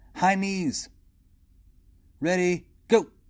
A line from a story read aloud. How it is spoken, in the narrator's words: Tuan called out